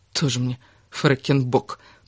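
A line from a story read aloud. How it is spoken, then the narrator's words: Grumbled. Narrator (Russian): проворчала Кира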